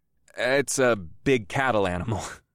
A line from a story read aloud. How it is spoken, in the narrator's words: I chuckled